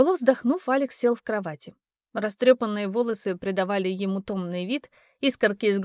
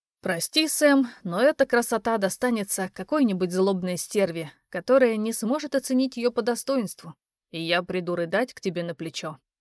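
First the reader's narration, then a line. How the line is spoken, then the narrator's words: Theatrical sigh. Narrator (Russian): театрально вздохнул парень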